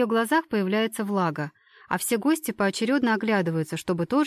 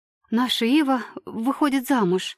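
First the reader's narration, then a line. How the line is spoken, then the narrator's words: Excited muttering mother. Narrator (Russian): взволнованно бормочет мама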